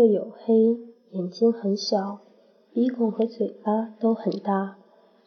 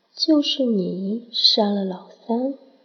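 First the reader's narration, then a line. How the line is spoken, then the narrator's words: Soft, alluring, slightly cold. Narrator (Chinese): 声音异常柔媚，与外表完全不符，却带着丝冷意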